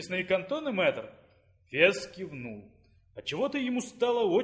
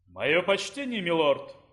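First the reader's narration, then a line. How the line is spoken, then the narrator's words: Booming orc voice. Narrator (Russian): прогудел орк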